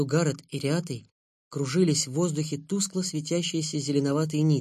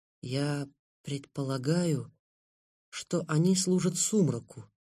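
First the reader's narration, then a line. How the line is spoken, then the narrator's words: Very calm, relieved kitten. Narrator (Russian): очень спокойно, даже с облегчением сказал котенок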